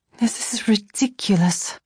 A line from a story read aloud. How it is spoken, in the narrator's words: I laughed softly